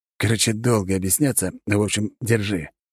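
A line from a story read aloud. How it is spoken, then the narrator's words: Gruff mutter. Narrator (Russian): буркнул он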